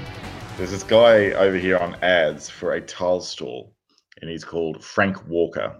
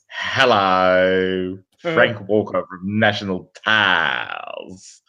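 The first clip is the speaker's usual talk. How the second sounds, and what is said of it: Impression of Frank Walker's greeting. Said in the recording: “doing an impression of Frank Walker ... He has this telltale greeting”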